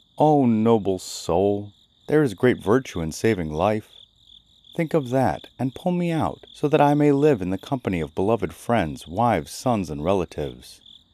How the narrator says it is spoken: cried

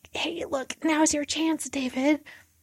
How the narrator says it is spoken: he whispers over to him

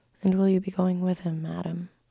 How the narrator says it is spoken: I asked

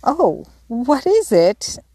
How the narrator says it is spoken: exclaimed Jo, trembling

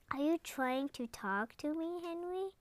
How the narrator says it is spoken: asked Annie

